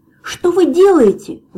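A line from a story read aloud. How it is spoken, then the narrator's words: Terrified scream. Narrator (Russian): в ужасе завопил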